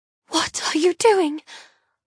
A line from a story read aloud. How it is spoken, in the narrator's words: I whisper in shock